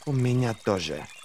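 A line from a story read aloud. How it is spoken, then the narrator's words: Hiss nearby. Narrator (Russian): прошипело Ферро в паре шагов от него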